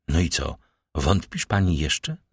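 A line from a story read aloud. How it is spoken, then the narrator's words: Plain. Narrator (Polish): zapytał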